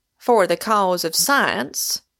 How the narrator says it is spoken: cried the complacent Pym

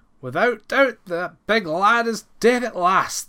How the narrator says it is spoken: they cried

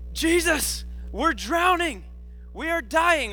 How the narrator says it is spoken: the disciples screaming

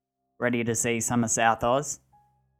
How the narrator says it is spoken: he said, in an exaggerated Australian accent

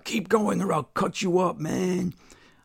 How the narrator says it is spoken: car jackal yells out

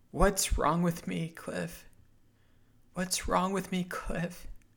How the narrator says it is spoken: Cliff's cries echoed mine

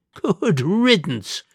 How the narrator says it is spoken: laughed the Duke

